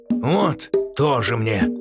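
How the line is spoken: Grumbling. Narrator (Russian): проворчал Геракл

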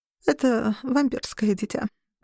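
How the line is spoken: Muttered. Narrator (Russian): пробормотала Калдения

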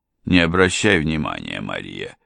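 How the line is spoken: Quiet. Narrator (Russian): тихо ответил

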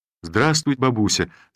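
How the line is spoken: Loud, cheerful voice. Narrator (Russian): сказал я громким, бодрым голосом

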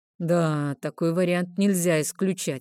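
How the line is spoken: Skeptical hum. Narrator (Russian): хмыкнул лорд Бастер

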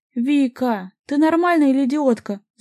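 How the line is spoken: Groaning. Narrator (Russian): застонал я

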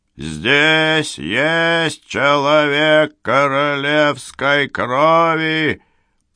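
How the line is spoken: Thundering. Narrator (Russian): прогремел Генрих

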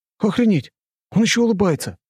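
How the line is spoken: Excited exclamation. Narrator (Russian): восторженно воскликнул я

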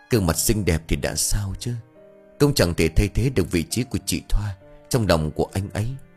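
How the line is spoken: Soft sigh. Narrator (Vietnamese): bảy khẽ thở dài

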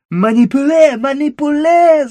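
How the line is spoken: Yelling. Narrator (Russian): заорал француз

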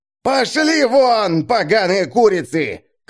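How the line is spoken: Shouting. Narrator (Russian): кричал он

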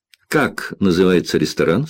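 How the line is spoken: Plain. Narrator (Russian): спросил Джек

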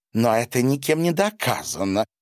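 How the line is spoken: Woman exclaiming. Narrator (Russian): воскликнула его худая, полногрудая жена

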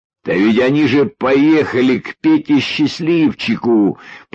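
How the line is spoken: Nearly shouting. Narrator (Russian): почти закричал Юрьев

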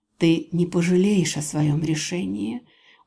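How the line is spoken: Barely audible purr. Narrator (Russian): мурлыкает едва слышно

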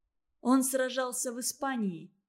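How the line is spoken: Plain. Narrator (Russian): сказала Наташа Чистякова

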